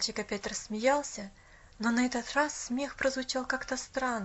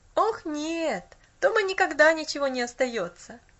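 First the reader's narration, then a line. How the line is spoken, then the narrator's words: Boy laughing. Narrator (Russian): засмеялся мальчик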